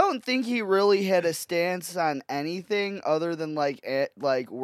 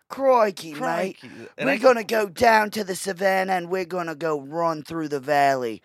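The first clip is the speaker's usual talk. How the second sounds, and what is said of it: Put-on Australian accent. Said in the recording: “Australian accent”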